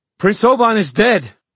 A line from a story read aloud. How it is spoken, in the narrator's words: she shouted